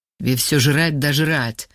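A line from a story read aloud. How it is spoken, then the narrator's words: Angry mutter. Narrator (Russian): Зло буркнул Вова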